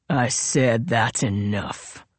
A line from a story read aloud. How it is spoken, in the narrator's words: Royal growled